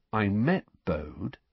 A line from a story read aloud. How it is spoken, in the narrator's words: he said slowly